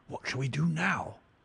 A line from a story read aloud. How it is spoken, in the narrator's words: whispered Sir Henry